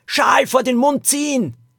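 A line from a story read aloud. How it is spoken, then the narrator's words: Calling out. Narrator (German): rief Lilo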